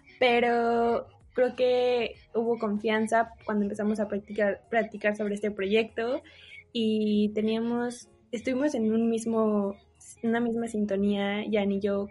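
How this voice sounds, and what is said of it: Childlike baby voice. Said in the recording (Spanish): “no me gusta nada mi voz ... Odio mi voz de bebé ... van a tener que escuchar mi voz de bebé”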